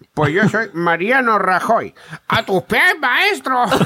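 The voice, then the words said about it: Poor imitation of another person's accent. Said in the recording (Spanish): “es que el acento de Rajoy no me sale bien ... te sale un poco mal, sí.”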